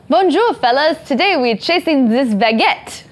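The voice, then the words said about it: Bad put-on French accent. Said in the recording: “That was a really bad French accent.”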